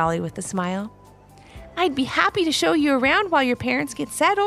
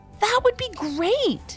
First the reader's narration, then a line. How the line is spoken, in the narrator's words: exclaimed Ivy